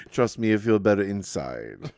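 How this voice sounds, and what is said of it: Put-on unidentified accent. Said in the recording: “I don't know what accent that is.”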